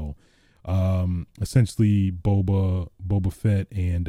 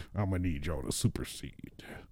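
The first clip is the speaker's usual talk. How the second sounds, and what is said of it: Imitates a fictional character's voice. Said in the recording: “This is my impression of Cad Bane ... This impression is killing me.”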